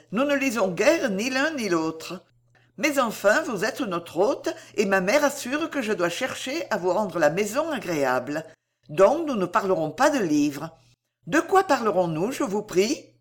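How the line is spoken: Exclaimed. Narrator (French): s'écria-t-elle

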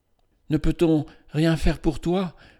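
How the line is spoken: Sorrowful question. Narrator (French): demanda-t-elle d'une voix désolée

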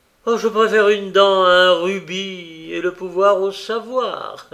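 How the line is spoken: Exclaiming while smiling. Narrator (French): s'écriait-il parfois en souriant

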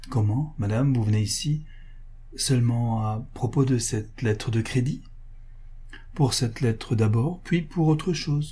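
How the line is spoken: Almost stammering. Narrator (French): lui dit-il, presque en balbutiant

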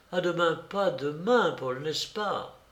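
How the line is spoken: Sweet caressing voice. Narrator (French): d'une voix toute chargée de suaves caresses

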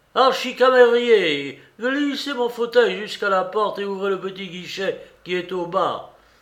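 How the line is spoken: Shouting. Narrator (French): Puis je l'entendis criant

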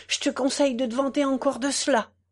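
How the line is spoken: Sighing. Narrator (French): soupira Madame le Chat

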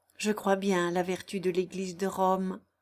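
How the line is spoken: Plain. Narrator (French): dit-elle

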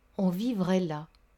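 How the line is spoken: Murmuring. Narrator (French): murmura-t-elle

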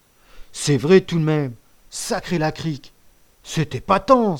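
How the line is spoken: Exclaiming. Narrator (French): s'exclama Lebrac

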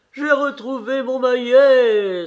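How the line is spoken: Exclaimed. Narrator (French): s'écria Karl

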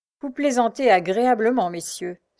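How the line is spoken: Sighing valet. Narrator (French): soupira le valet

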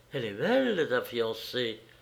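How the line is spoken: Murmured. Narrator (French): murmura-t-elle

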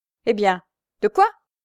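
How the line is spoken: Curt. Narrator (French): fit-il d'un ton bref

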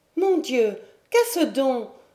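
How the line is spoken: Exclaimed. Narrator (French): s'écria-t-elle

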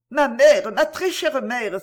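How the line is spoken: Exclaiming. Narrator (French): s'écria Camilla

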